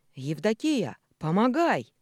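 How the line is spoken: Old man's sudden shout. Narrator (Russian): внезапно закричал дед Пихто

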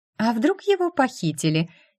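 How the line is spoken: Giggling woman. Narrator (Russian): хихикнула женщина

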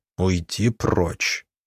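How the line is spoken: Barely audible hiss. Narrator (Russian): едва слышно прошипел

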